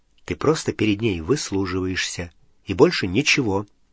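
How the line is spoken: Quiet, low voice. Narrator (Russian): Гарри тихонько сказал Рону

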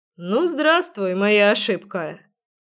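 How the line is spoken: Cheerful smirk. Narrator (Russian): весело ухмыльнулся брюнет

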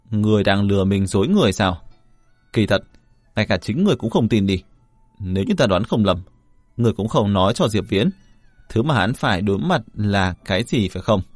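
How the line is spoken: Laughing loudly. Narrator (Vietnamese): Y ... lại cười lớn một lần nữa, nói

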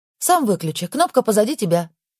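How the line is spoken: Quick speech. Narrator (Russian): Быстро проговорила Настя

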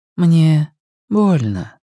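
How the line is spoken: Soft speech. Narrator (Russian): мягко сказала Надин

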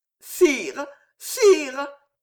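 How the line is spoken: Stammered in ecstasy. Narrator (French): bégayait Jeanne, extasiée

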